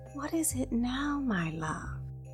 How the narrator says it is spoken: she softly asked

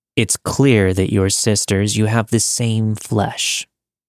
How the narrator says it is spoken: in an eerily calm tone, he said

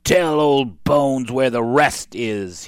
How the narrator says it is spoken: he growled

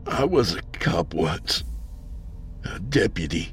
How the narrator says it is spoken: he said sadly

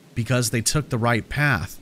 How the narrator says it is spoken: I answered

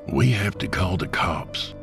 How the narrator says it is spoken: Jacob whispered

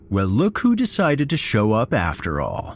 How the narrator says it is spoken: Todd sneered

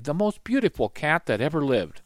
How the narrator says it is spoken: he said sadly

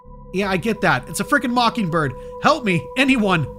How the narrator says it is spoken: I shouted out into the empty woods

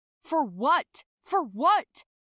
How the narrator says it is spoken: he shouted after me

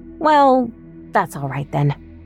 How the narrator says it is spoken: I sigh

